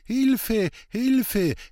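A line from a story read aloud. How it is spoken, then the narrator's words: Wailing from nearby. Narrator (German): jammerte es aus nächster Nähe zurück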